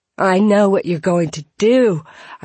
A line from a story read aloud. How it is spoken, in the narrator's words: I cried